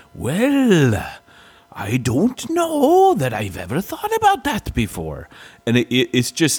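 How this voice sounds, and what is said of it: Imitates a thick Welsh accent. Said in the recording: “on that thing is so Welsh ... his accent, oh my gosh ... But when he's talking, he's like”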